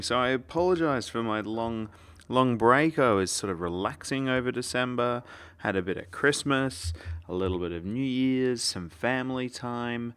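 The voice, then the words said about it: Australian accent, softened by British. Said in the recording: “I am Australian from the accent ... if you think this is a harsh Australian accent, you should have heard me 8 years ago before I had the United Kingdom's lovely British accent kind of smooth off a lot of the rough edges”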